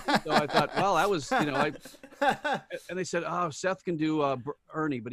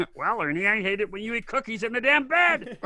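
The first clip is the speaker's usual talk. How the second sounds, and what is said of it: Bert from Sesame Street impression. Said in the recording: “doing the voice of Bert from Sesame Street”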